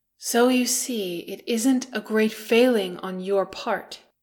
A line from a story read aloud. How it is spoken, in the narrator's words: Keeley said earnestly